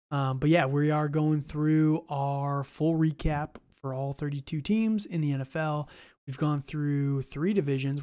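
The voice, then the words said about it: Scratchy voice. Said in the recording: “My voice is a little scratchy today. I've got some allergies going on”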